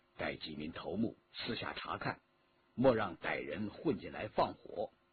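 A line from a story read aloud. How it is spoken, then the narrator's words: Soft instruction. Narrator (Chinese): 轻声地吩咐新燕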